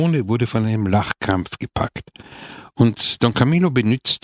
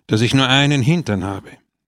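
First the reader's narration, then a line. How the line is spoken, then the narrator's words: Sad explanation. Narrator (German): erklärte traurig der Kolchose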